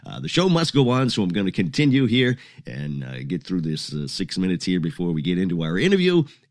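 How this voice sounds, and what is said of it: Congested, sick-sounding voice. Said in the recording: “I don't feel that good. I have a cold”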